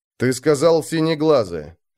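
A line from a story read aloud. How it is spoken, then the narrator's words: Icy repetition. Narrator (Russian): ледяным тоном повторил Арнгрим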